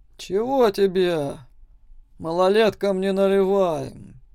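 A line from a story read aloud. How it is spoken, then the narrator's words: Weary mustached bartender. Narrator (Russian): устало сказал усатый мужчина за барной стойкой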